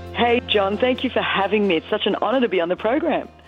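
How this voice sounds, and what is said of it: Slight Australian accent. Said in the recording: “We hear a slight accent. ... This is the good old Aussie accent”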